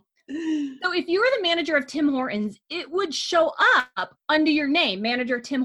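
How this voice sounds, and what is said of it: American accent. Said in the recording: “That's not how Canadians say it ... You just sound American.”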